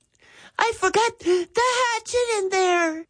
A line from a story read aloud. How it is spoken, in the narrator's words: Jeffrey gasped